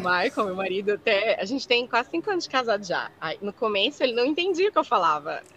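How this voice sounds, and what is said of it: Brazilian Minas Gerais (mineiro) accent. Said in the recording (Portuguese): “eu não perco o sotaque, né? Todo, eu, eu abro a boca, todo mundo já sabe, é mineira”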